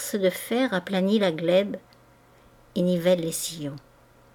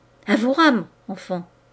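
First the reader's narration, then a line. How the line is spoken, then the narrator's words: Exclaimed. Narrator (French): s'écria-t-il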